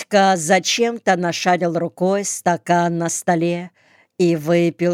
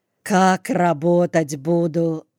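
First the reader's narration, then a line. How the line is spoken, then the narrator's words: Sighing. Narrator (Russian): вздохнула она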